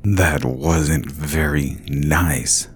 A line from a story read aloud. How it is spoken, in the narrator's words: said in a low, growling voice